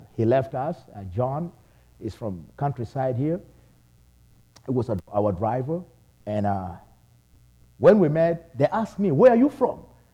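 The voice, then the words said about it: Heavy accent. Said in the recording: “you have heavy accent”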